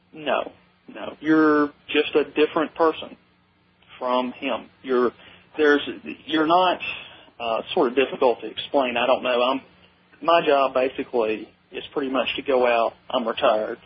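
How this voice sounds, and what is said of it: Southern accent. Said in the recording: “I can hear the Southern accent in you. No question about it.”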